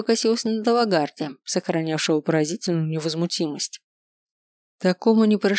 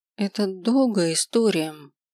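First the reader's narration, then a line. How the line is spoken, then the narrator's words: Hesitant. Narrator (Russian): начала неуверенно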